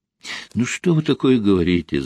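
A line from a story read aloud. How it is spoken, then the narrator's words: Laughing. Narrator (Russian): засмеялась Ольга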